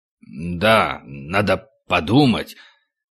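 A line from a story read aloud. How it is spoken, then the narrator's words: Low mutter. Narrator (Russian): Ваня вполголоса пробормотал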